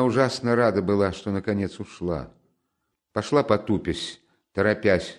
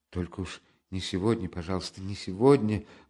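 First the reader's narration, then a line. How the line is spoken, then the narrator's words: Frightened pleading mutter. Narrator (Russian): бормотала она с замиранием сердца, точно кого-то упрашивая, как ребенок в испуге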